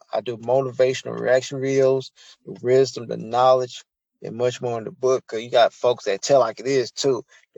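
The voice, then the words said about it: Country Southern US accent. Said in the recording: “y'all understand my accent, I'm country in this thing”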